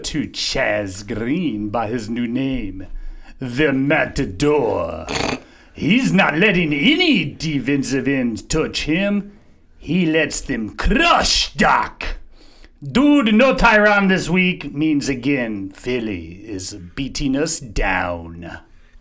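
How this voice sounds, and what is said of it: Put-on Spanish accent, somewhat French. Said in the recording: “Who was the accent? ... That, my friend, is my Spaniard accent. ... Kind of all right, it's a Spanish. ... French Spaniard, maybe. ... It's a Spanish a Matador. French-y.”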